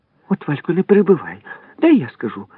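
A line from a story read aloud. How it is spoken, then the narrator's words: Sharp-nosed girl exclaiming. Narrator (Ukrainian): вигукнула гостроносенька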